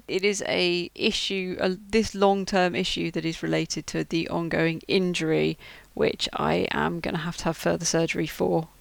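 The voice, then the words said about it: Croaky voice. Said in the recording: “it's kind of left me with this croaky voice. So this is basically what I sound like now.”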